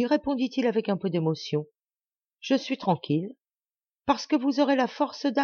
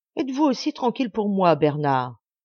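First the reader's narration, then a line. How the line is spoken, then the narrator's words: Reproachful. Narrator (French): dis-je d'un ton de reproche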